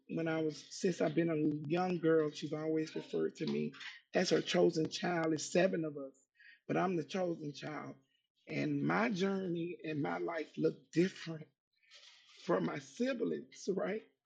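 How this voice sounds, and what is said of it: Emotional, voice close to tears. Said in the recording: “I'm sorry about getting emotional”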